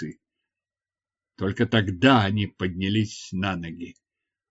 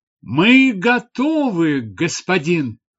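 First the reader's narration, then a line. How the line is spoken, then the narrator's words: Female shout. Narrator (Russian): закричала она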